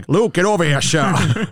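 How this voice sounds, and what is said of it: Laughing imitation of another person's voice. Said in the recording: “I butchered my Sean Connery because I'm laughing too hard.”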